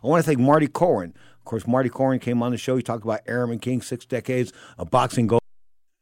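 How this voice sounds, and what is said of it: Hoarse, failing voice. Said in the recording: “My voice would go out at the end of the show ... My voice is just going. I can't believe it. It's just gone.”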